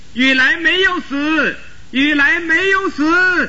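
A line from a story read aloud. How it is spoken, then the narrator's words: Joyful shouting. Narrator (Chinese): 大家都高兴地叫起来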